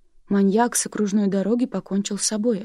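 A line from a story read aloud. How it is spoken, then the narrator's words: Plain. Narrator (Russian): ответила Нина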